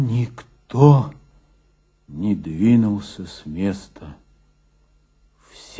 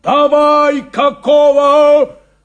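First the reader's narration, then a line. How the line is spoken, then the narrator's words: Yell. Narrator (Russian): заорал Шурыгин трактористам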